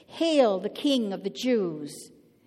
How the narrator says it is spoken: And they mocked him

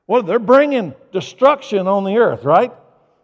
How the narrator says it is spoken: He shouted

